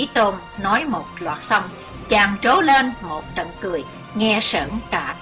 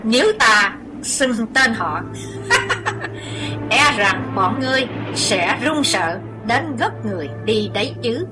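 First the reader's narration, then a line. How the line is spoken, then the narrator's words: Cold scoffing laugh. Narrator (Vietnamese): cười nhạt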